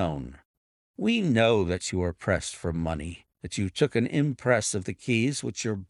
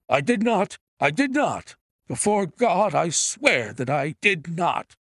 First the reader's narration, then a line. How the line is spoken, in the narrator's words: cried our wretched prisoner